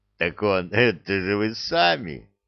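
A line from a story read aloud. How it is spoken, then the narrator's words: Chuckling. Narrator (Russian): хохотнул Веркит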